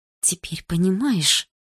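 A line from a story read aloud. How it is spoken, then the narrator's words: Whisper. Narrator (Russian): прошептала Дилара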